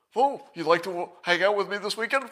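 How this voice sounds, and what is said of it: Mocking, exaggerated dim-witted voice. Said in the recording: “they would mock whatever you said this way. And I'll give you my impression ... she would just say what you said, but like somebody with brain damage”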